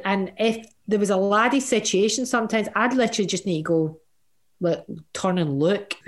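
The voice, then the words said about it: Glaswegian accent. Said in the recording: “Having the accent, having a Glaswegian accent”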